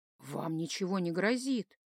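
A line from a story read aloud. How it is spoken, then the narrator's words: Soft alien voice. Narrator (Russian): мягко сказал инопланетянин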